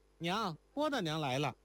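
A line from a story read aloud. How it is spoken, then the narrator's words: Calling out. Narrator (Chinese): 如莲喊道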